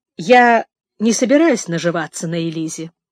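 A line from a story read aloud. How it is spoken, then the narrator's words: Dry tone. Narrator (Russian): сухо сказал мистер Шелби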